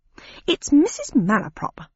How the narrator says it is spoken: said the Dodo in an affronted tone

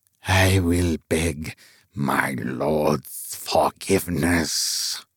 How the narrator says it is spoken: it muttered

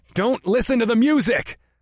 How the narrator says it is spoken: I shouted

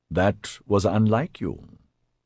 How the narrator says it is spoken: he said softly

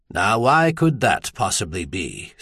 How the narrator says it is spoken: Stainer wondered dryly

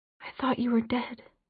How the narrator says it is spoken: whispered

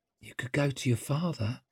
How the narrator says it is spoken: murmured Zuri

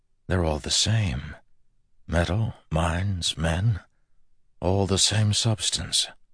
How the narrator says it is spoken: An awed voice in the back of his mind whispered

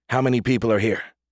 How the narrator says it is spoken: asked Reach

